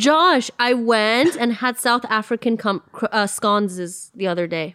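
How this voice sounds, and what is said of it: Usual voice. Nothing is said of it.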